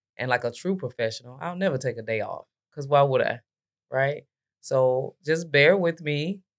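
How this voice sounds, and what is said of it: Unusually deep, sick-sounding voice. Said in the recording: “I got a little bit of Glorilla / Barry Manilow going on right now, but I'm battling something ... it's much deeper than what it normally is”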